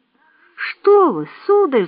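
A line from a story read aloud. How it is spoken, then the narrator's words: Pleading. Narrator (Russian): взмолился Сэм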